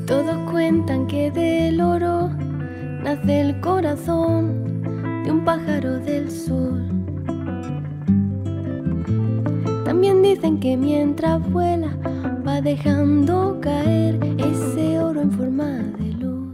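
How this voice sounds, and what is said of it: Spain Spanish accent with lisp. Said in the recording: “The Spanish from Spain accent and lisp. Beautiful.”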